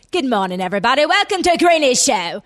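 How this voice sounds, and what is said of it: Put-on British accent, Eliza Doolittle-like. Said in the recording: “you were doing a British accent ... it was actually pretty good ... You did it better earlier. ... Much. ... Eliza Doolittle before she got like, became whatever.”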